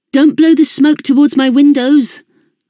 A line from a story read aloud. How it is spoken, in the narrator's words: I shouted after him